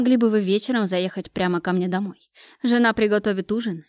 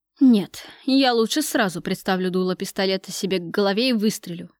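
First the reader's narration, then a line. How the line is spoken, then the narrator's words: Grumbling. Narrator (Russian): проворчал Кравцов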